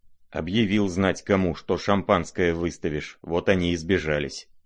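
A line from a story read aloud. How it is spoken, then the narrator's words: Muttering. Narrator (Russian): пробормотал Рогожин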